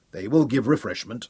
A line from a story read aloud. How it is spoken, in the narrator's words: said